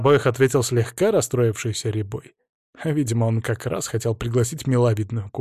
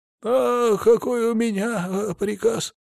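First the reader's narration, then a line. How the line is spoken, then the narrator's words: Wheezing, breathless. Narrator (Russian): прохрипел сторож, часто-часто дыша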